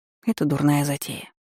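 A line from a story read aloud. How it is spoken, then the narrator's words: Whispered reply. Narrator (Russian): прошептала в ответ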